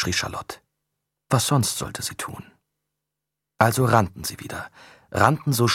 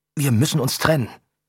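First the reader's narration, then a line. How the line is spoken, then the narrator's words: Panting while running. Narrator (German): keuchte Adrian im Rennen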